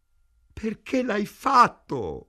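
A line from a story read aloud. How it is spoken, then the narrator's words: Moaning. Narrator (Italian): gemette Ida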